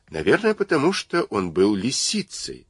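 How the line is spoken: Calm. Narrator (Russian): спокойно сказал Ант

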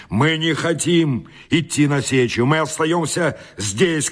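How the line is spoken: Crowd shouting. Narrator (Russian): кричала толпа

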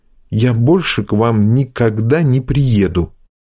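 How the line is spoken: Quiet and angry. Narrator (Russian): сердито тихо говорю ему

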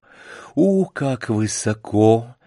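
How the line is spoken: Weak, trembling voice. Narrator (Russian): произнесла она ослабевшим и вздрагивающим голосом

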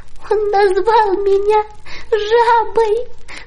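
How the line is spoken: Sobbing. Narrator (Russian): рыдала она

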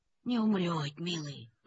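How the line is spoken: Toothless mumble. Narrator (Russian): прошамкала Анисья

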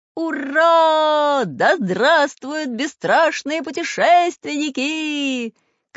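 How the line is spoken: Crowd shouting. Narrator (Russian): кричали люди

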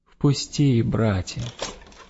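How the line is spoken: Gentle pleading, old man. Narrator (Russian): старичок опять давай проситься, молить ласково

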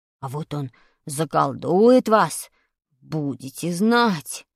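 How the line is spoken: Weak voice. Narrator (Russian): сказал слабым голосом Вадик

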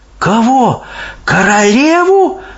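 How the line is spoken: Horrified exclamation. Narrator (Russian): в ужасе воскликнула Софи

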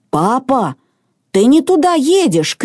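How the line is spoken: Shouting. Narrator (Russian): крикнул в кабину Мартин

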